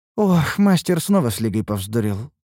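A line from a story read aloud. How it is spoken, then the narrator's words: Sigh. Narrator (Russian): вздохнула Лейна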